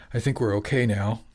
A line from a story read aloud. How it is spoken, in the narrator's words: he said, a bit hoarsely, his voice louder than Jimmy expected against the background of the fading storm